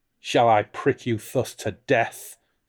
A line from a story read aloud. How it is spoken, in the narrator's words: sneered the stranger